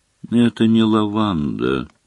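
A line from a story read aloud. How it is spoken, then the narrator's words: Weary. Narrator (Russian): устало сообщила она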